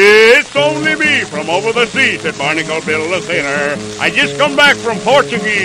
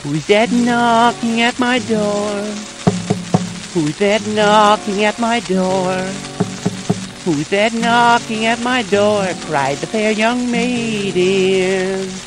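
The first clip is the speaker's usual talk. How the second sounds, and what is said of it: Silly put-on maiden voice. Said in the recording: “That same dumb voice”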